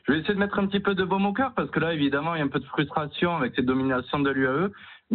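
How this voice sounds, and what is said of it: Singsong southwestern French accent. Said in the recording (French): “un accent chantant, ça me plaît ça ... je représente le Sud-Ouest”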